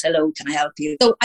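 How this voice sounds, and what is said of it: Polite telephone voice. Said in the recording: “I had to have my phone voice.”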